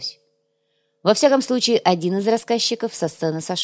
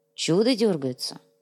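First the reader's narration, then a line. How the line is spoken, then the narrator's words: Quiet. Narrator (Russian): негромко произнес Дрега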